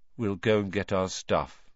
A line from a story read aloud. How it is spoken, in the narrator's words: said Ron, in a hopeless sort of voice